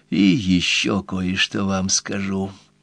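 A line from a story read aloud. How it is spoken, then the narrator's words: Said quietly. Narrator (Russian): тихо промолвила она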